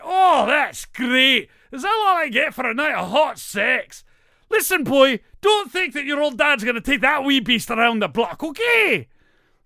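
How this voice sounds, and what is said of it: Put-on comic Scottish accent. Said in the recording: “I really love Fat Bastard... it's just a really funny Scottish accent.”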